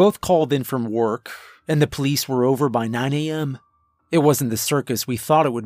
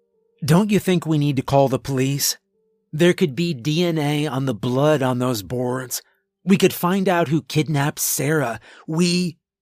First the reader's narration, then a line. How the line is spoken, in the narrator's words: I sighed